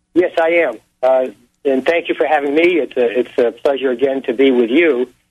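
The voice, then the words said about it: Australian accent. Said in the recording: “accent from down under”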